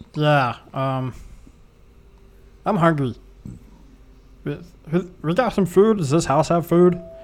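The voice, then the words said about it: Slightly altered character voice. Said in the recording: “Your voice sounds a little different.”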